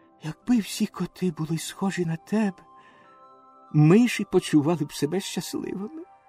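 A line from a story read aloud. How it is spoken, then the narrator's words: Whispered in ear. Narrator (Ukrainian): пришепотів йому на вухо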